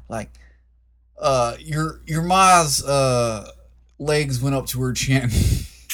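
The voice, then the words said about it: Exaggerated put-on Southern accent. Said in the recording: “I did a New York accent and now I gotta do a southern one. ... Trying too hard on your Swayze.”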